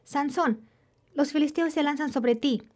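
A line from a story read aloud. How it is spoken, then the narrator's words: Shouted. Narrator (Spanish): gritó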